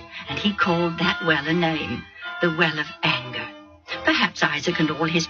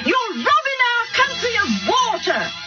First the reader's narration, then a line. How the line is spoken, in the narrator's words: they yelled